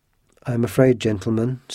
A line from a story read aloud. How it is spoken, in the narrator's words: said Athos calmly